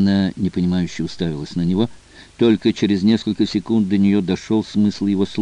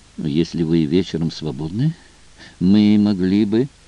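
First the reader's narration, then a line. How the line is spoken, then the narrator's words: Timid suggestion. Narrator (Russian): Дэвид робко предложил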